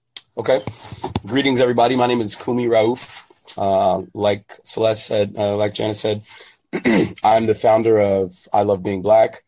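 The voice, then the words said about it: Slightly hoarse voice. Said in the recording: “my voice is a little bit hoarse right now”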